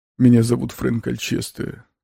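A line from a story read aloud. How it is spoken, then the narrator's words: Quiet. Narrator (Russian): тихо произнес он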